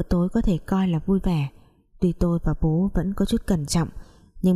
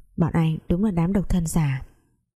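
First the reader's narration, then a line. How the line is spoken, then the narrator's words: Sighing. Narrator (Vietnamese): tôi thở dài nói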